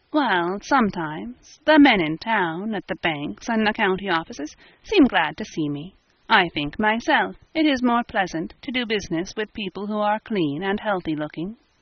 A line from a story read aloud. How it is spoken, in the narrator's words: she admitted blandly